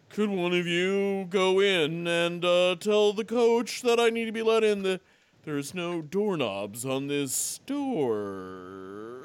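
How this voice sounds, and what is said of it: Radio announcer voice. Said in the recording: “Let me just use my radio voice.”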